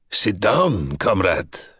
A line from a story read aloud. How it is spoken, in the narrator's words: said the tall one, his voice harsh as a file on Shukshin's ragged nerves